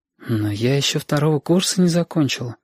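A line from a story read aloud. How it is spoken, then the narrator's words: Hesitant. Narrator (Russian): сказала Сашка неуверенно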